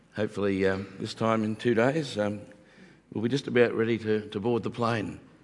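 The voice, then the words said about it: Slightly croaky voice. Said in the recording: “my voice is still a little bit croaky... maybe don't sound the best”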